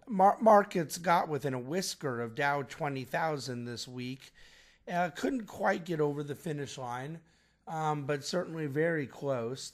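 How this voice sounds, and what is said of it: Quieter than normal, cold-affected voice. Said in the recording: “forgive my voice ... I'm getting over a little bit of a cold, so the volume may not be as loud as normal”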